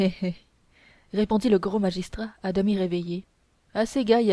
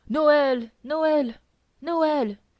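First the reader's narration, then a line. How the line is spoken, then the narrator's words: Crowd shouting from everywhere. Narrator (French): criait le peuple de toutes parts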